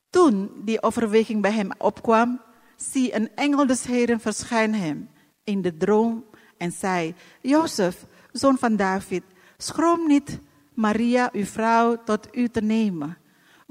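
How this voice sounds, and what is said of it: Non-native accent in Dutch. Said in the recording (Dutch): “Ik heb een andere accent. ... stoort u niet aan mijn accent ... die accent van mij”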